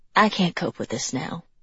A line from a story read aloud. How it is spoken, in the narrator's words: she said, her voice fading